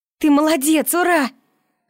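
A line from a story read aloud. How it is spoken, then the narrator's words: Joyful shout. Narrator (Russian): радостно закричала Миюки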